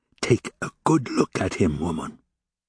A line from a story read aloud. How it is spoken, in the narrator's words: And he added in a whisper